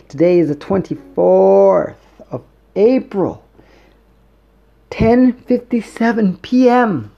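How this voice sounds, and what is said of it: Dramatic voice. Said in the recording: “that dramatic voice”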